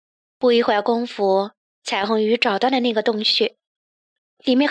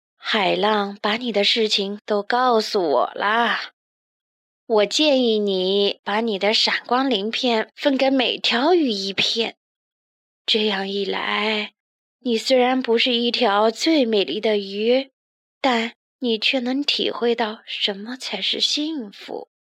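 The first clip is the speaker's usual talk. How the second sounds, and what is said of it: Low, deep old woman's voice. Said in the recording (Chinese): “章鱼奶奶用低沉的声音说”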